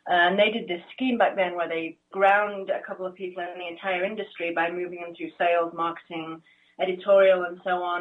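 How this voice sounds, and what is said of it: English accent. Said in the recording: “I grew up in England, you can probably hear from the accent”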